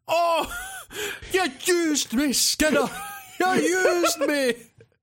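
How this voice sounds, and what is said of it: Scottish accent character voice. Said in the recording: “a guy that spoke in a Scottish accent”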